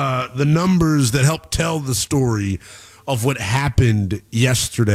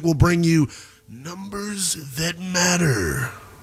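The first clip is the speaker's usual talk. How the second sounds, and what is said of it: Big announcer-style voice. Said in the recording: “That was my big voice guy impersonation.”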